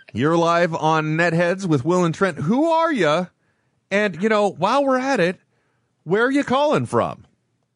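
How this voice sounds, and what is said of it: Exaggerated game show host voice. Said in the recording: “game show voice”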